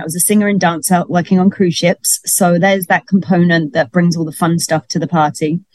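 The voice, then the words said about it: London English accent. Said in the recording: “I'm from London, if you didn't notice an accent.”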